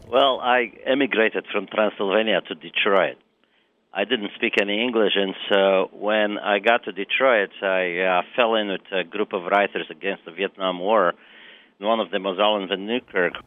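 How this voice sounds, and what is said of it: Transylvanian Romanian accent. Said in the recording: “He had a Transylvanian accent, so it was compelling.”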